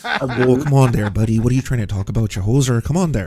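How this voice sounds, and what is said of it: Exaggerated Canadian accent. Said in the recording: “Lance's accent ... You are allowed to mock Canadians ruthlessly”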